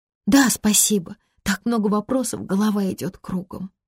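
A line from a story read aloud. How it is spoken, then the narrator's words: Sighing. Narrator (Russian): вздохнула она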